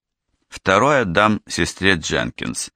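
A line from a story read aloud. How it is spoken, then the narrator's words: Gloomy statement. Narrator (Russian): мрачно произнес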